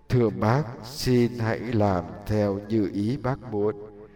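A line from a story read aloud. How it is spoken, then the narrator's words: Soft, pained. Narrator (Vietnamese): Cây tre cảm thấy đau buốt từ trong lòng, nhỏ nhẹ thưa với bác nông dân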